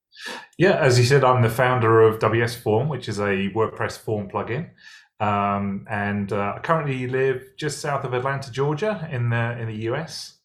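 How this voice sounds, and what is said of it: English accent. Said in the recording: “As you can probably tell from my accent, not originally from the US, originally from England.”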